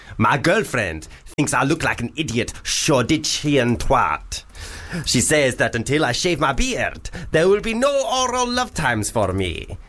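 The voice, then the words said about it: Put-on panto-style Arabian accent. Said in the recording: “That was an Arabian accent. ... That was perfect. ... that was what they all sounded like in Aladdin ... the Panto ... Arabian ... Nights ... Version.”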